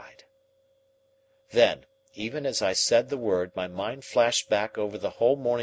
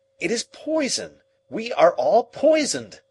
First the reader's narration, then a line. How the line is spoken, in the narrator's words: I cried again